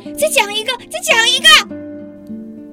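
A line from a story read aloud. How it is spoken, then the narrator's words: Loud. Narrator (Chinese): 爸爸大声地说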